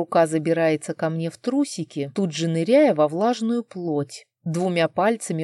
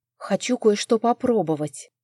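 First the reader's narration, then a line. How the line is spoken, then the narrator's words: Whisper while recovering. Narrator (Russian): прошептала приходя в себя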